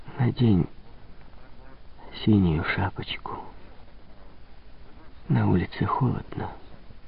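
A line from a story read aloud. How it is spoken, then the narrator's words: Whispered. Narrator (Russian): прошептала она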